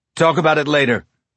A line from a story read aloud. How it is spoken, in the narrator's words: Kelly barked